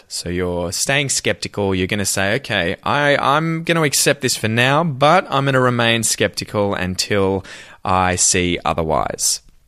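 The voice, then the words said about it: Australian accent. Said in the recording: “copy me exactly if you're trying to copy an Australian accent”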